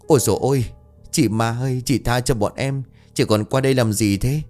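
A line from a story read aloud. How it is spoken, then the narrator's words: Terrified stammering. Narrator (Vietnamese): Khá cả người lập tức run rẩy, lắp bắp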